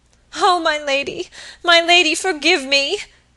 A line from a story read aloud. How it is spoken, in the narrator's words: sobbed Phoebe